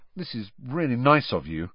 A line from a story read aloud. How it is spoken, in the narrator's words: Harry muttered to Mrs